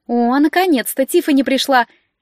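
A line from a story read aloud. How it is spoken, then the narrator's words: Shout. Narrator (Russian): крикнула Лекси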